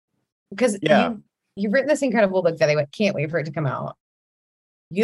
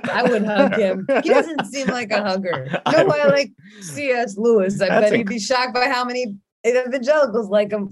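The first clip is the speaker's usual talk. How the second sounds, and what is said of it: Imitation of a drunk person talking. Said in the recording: “You're incredible drunk imitator. That was incredible. That was incredible drunk imitation. ... intimidating Tolkien being drunk.”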